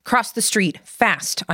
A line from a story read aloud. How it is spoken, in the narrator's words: called out